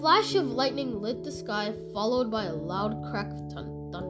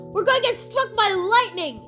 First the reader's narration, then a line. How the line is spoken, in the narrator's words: shouted Todd